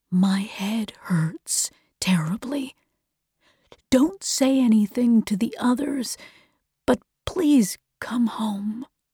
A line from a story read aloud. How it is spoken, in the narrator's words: said quietly